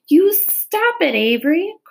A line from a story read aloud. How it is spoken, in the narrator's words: cried Fern